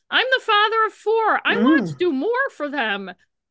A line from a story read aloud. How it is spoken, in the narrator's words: Roger kept yelling